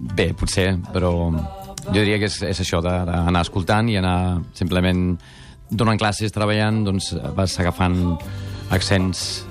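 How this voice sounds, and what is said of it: Near-native local Catalan accent. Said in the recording (Catalan): “aquest accent català, amb 20 i pocs anys, ja gairebé sembles de... De Palafolls”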